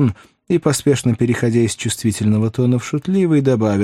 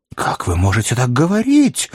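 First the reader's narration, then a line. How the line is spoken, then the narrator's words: Indignant exclamation. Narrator (Russian): воскликнул шотландец, вспыхнув от негодования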